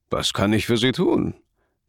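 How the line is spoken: Cracking voice. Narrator (German): fragte er mit einer brüchigen Stimme

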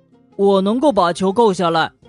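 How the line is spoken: Loud young animal. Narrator (Chinese): 小驼鹿大声说

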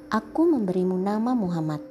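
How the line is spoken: Plain. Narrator (Indonesian): kata Abdul Muthalib

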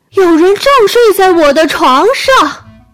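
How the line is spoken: Small bear roaring. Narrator (Chinese): 特别小的熊大吼起来

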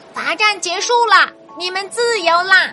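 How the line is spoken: Loud shout. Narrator (Chinese): 青蛙大声喊道

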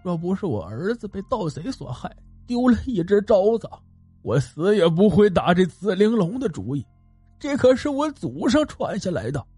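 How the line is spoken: Weeping, sobbing. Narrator (Chinese): 余温竟然哭哭啼啼道

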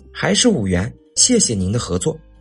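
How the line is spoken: Forced smile. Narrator (Chinese): 小翠儿脸上仍堆着笑

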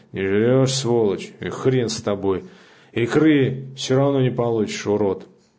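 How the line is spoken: Drunken voice. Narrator (Russian): пьяным голосом сказал

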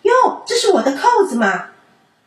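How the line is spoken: Loud exclamation. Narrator (Chinese): 他大叫起来说

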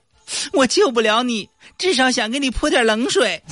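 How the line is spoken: Crying bird. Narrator (Chinese): 鸟也哭了

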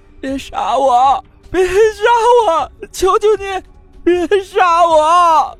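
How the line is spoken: Hoarse, crying plea. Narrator (Chinese): 声音嘶哑的哭喊道

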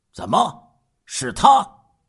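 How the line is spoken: Heavy, awkward, low voice. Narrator (Chinese): 徐峰晓沉重而又尴尬的 沉声说

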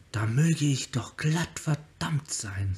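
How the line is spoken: Said quietly. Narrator (German): sagte er leise

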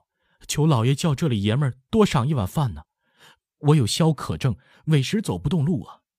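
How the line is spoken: Pleading. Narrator (Chinese): 有人央告

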